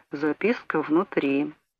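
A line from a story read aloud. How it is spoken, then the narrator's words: Quiet. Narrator (Russian): Торговец тихо сказал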